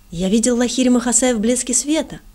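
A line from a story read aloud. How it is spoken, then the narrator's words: Exclaimed. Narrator (Russian): воскликнул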